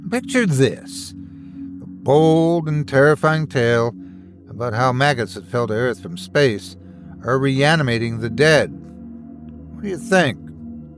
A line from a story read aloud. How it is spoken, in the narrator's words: Miley sighed